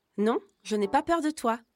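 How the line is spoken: Exclaimed, nose pinched. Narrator (French): s'exclame en se bouchant le nez

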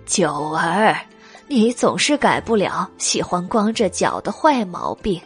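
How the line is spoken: Old woman, fond laughter. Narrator (Chinese): 马老太君宠溺的笑道

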